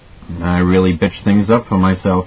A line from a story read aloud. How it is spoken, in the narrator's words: he said evenly